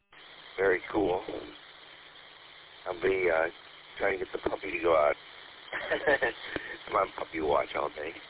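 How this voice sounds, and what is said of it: Groggy morning voice. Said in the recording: “my voice is still my morning voice”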